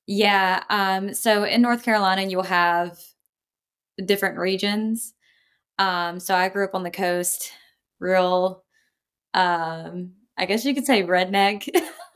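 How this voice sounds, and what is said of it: Southern US accent. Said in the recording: “Your accent is very Southern.”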